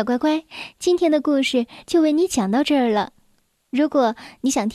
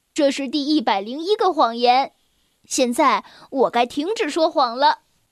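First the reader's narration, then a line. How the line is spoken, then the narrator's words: Smiling. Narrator (Chinese): 他笑着说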